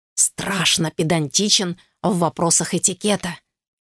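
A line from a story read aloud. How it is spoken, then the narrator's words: Near-whisper warning. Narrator (Russian): почти шепотом предупредил Фриск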